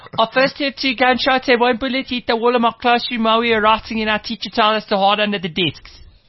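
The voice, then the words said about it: Put-on local accent. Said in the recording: “let me try and do this then in an appropriate accent ... That's the exact accent.”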